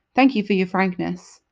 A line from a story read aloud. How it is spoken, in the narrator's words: I said coldly